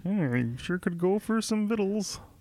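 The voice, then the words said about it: Bad Kermit the Frog impression. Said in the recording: “I'll try to do a bad Kermit too”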